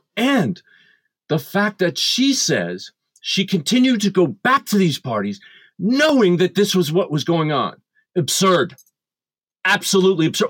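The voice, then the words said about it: Angry, agitated voice. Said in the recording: “you can probably hear it in my voice, I am angry.”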